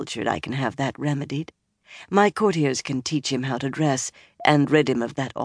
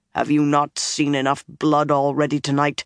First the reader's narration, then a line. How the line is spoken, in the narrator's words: He said coldly